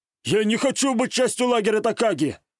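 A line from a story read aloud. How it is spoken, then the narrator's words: Shouted. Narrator (Russian): выкрикнул Котта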